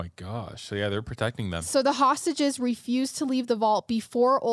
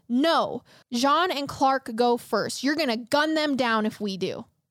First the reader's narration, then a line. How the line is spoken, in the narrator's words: Kristen yelled back at the police